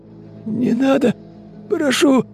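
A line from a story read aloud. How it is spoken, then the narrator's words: Hoarse rasping man. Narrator (Russian): прохрипел мужчина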